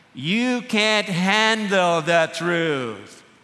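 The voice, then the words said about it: Feeble Jack Nicholson impression. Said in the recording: “Did I sound like him? Anyway, that's my feeble attempt at imitating him.”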